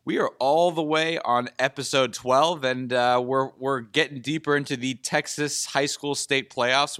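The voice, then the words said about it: Slightly sick, congested voice. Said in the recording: “I'm feeling a little bit under the weather ... if you can tell in my voice”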